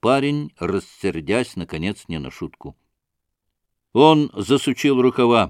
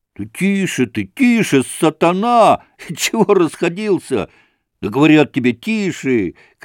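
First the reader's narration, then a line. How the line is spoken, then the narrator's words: Group shouting. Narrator (Russian): кричали разбойники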